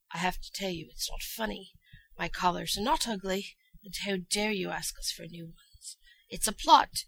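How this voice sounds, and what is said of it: Character voice with darker accent. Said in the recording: “As Chancellor Thalia, sometimes I have to have a darker accent.”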